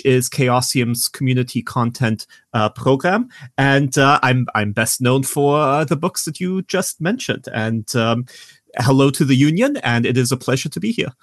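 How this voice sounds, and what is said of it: German accent. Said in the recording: “I noticed you have an accent. You're originally from Germany”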